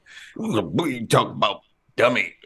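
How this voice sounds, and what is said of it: Imitates another person's voice. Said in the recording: “I'm doing Redd Foxx... not a good impression”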